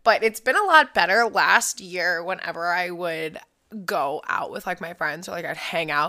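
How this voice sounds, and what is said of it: Strained, partly lost voice. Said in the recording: “my voice is a little weird ... I lose my voice”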